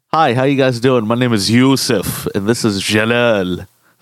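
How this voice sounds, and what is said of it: Put-on accent saying a name. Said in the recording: “I love how you get into the accent... when you say Jalal's name”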